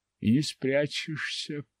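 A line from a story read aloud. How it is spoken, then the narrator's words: Muttered. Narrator (Russian): пробормотал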